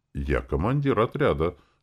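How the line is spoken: Warrior's wry lopsided smile. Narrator (Russian): скривил рот в однобокой улыбке воин

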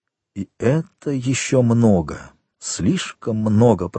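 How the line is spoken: Whisper. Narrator (Russian): прошептал Вильфор

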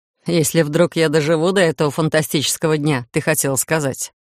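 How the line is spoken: Chuckling. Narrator (Russian): Хохотнул Титан

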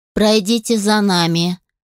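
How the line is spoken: Wooden, emotionless voice. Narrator (Russian): деревянным и безэмоциональным голосом сказала одна из служанок

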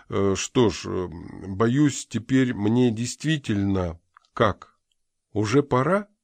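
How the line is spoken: Timid. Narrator (Russian): Джонс робко произнес

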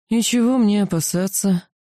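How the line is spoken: Weary question from a lord. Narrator (Russian): устало поинтересовался владыка

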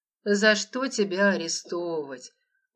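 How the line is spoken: Weary reply. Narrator (Russian): устало отозвался маркиз

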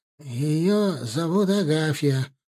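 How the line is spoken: Mumbling. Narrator (Russian): промямлил Померанцев

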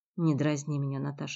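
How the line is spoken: Irritated request. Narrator (Russian): раздраженно попросил Джиль

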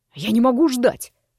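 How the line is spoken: Through gritted teeth. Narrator (Russian): процедил незнакомец

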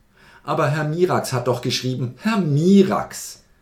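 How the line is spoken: Philosopher calling, laughing loudly. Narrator (German): rief der Philosoph und lachte laut

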